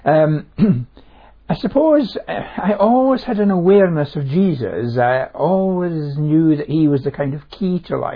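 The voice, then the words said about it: Scottish accent. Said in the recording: “You sound a bit Scottish.”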